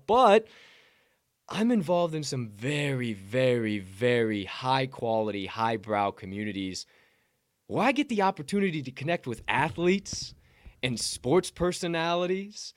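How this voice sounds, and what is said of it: Sarcastic tone. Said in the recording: “obviously you can see I'm being sarcastic”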